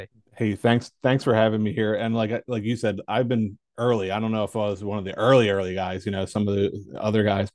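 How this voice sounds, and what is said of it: Philadelphia accent. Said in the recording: “my Philly accent”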